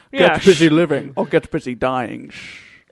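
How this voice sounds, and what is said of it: Sean Connery impression, sounds German. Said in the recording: “my Sean Connery impression ... Is he German now?”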